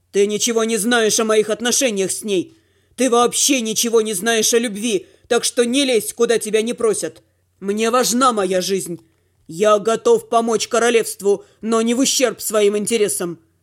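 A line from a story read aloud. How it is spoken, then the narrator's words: Growled. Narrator (Russian): прорычал Дима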